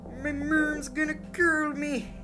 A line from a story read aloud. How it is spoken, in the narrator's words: He gasped